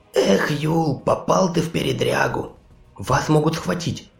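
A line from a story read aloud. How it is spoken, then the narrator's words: Frightened whisper. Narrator (Russian): испуганно прошептал парень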